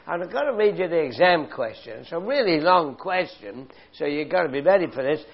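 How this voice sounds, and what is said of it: British London accent. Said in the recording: “a story that came from Britain ... North London, where I used to live, as you can tell from my accent”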